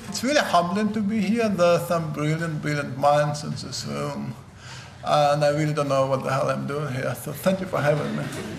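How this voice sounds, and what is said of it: Heavy Russian accent. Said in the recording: “I speak with a pretty heavy Russian accent”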